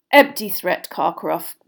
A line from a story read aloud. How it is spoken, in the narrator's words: growled a voice from near the door